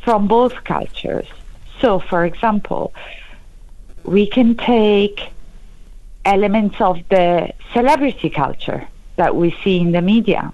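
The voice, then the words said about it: Italian accent. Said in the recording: “I think it's quite clear that I'm Italian, for example, as due to my accent.”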